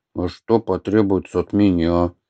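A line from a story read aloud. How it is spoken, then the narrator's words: Gloomy speech. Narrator (Russian): мрачно проговорил Атхи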